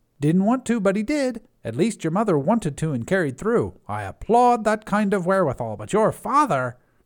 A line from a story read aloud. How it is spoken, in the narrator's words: spat